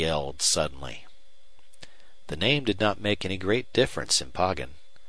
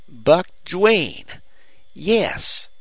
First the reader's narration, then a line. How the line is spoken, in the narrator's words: he broke out hotly